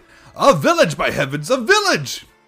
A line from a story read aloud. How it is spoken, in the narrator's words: exclaimed the philosopher